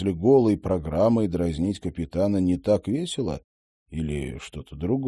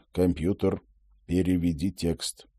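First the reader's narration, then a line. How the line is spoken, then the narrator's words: Quiet furtive request. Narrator (Russian): Роджер негромко, воровато попросил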